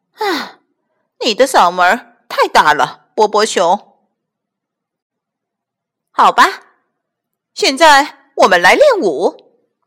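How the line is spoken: Sighing teacher. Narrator (Chinese): 咕咕哒老师叹了一口气，说

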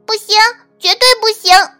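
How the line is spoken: Bold little dormouse crying out. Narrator (Chinese): 胆子最大的那只小睡鼠叫了起来

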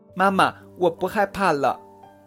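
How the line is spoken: Loud shouting. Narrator (Chinese): 高个子…大喊

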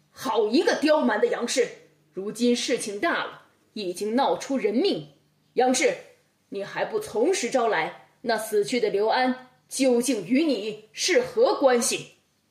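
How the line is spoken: Roaring interrogation. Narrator (Chinese): 包公吼着问话

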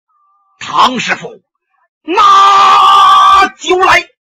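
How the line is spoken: Booming shout. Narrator (Chinese): 他这嗓门也大呀，一声喊喝

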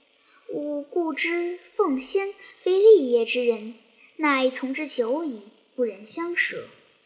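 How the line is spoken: Solemn sigh after long pause. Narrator (Chinese): 晃沉吟良久，乃巍然叹曰

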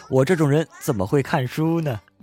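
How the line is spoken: With a smile. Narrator (Chinese): 我笑了笑说

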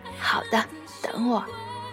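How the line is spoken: Man crying. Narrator (Chinese): 一个男子汉居然哭了，哭着说

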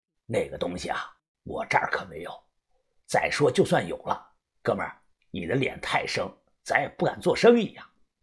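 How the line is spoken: Lowered, wary voice. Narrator (Chinese): 这个古董店的老板他眼神一变，压低了声音

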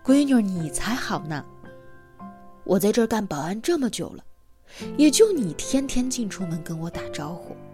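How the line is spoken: Laughing, warm. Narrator (Chinese): 大叔笑了说

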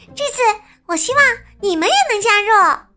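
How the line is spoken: Shouting. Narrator (Chinese): 艾米喊着

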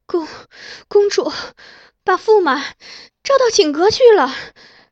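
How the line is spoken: Panting. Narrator (Chinese): 他睁大眼睛盯着我，喘着气说

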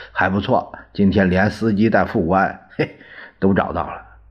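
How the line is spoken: Joking. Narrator (Chinese): 他开玩笑说

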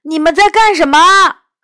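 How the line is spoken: Straining, tiny voice. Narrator (Chinese): 即使壁虎扯着嗓子喊，声音还是太小了

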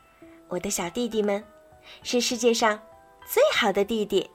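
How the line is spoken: Smiling. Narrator (Chinese): 微笑着说

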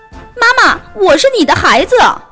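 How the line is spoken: Two voices calling together. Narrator (Chinese): 两只小白兔一起叫

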